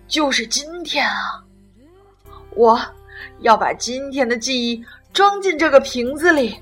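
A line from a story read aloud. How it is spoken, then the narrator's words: Loud shout into bottle. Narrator (Chinese): 他对着瓶口大声喊道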